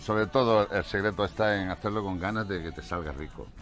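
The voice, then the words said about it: Mixed Spanish regional accent. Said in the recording (Spanish): “¿de dónde eres con ese acento? ... parezco de todos lados menos de aquí, de Huelva ... me fui muy jovencito a Valencia y he estado unos 24 años en Valencia”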